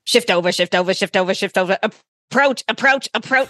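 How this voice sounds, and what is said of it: Imitates another person's voice. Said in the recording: “this is my impersonation of him”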